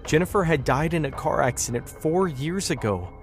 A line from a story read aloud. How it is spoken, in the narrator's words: she said, her voice breaking with sorrow